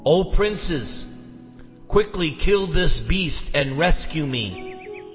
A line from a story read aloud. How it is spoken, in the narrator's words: Drona cried out